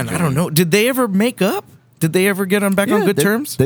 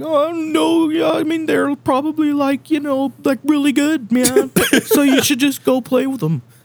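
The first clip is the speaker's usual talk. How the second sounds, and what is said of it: Imitates another person's voice. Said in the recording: “That's like the closest Lars I can do, probably.”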